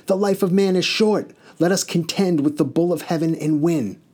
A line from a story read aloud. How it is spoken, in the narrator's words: Enkidu cried out to Gilgamesh